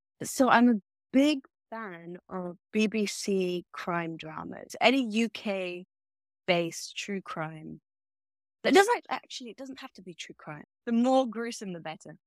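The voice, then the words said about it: British accent. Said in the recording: “your accent's a bit of a giveaway ... I'm British”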